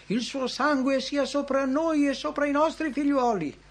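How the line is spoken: Crowd shouting. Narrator (Italian): essi gridarono

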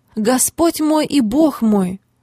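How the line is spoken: Exclamation. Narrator (Russian): Фома воскликнул

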